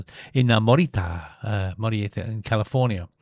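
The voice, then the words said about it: Put-on Mexican accent. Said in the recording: “Why did I do that with a Mexican accent?”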